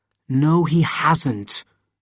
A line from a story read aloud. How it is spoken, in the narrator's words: said Etienne in an angry voice